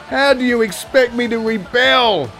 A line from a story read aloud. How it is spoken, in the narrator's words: cried